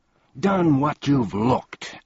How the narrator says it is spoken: angrily shouted one of the salesmen

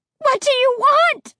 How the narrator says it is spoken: I screamed in a voice I didn't even recognize

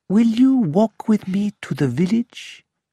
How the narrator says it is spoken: he then asked me, quietly

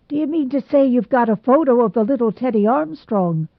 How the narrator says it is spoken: exclaimed Mr

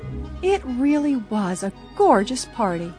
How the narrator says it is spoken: Bess sighed blissfully

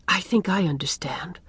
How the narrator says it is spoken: whispered Anne

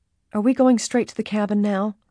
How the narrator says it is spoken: Alice asked anxiously

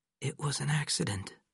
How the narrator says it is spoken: whispered

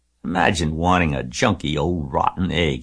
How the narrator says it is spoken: he muttered

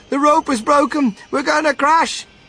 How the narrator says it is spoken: TV cried out

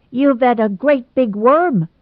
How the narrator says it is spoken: shrieked Gerald

